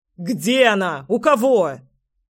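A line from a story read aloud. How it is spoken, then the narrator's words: Furious yelling. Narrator (Russian): Я уже орал, готовый сорваться с места и крушить все вокруг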